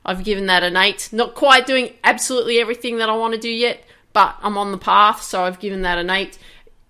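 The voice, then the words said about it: Excited, energetic voice. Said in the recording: “as you can hear in my voice, I'm like really excited about things”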